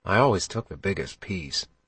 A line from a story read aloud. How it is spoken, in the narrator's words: he whispered